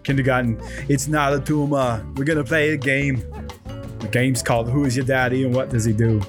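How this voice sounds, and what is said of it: Austrian-accent impression with British slipping in. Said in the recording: “I think I slipped my British accent into my Arnold a little bit. He's Austrian.”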